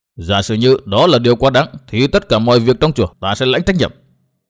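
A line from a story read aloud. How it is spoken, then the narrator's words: Loud harsh bark. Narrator (Vietnamese): Ngân Thông lại nạt lớn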